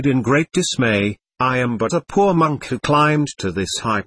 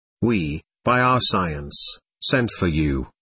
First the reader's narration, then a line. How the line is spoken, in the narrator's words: murmured the voice